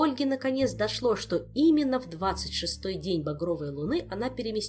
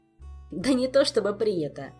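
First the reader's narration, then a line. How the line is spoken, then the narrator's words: Giggling. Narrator (Russian): хихикнул Жак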